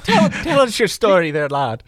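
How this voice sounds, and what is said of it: Put-on Irish accent. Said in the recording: “he had an Irish accent. I won't do an Irish accent for you because it'll be brutal.”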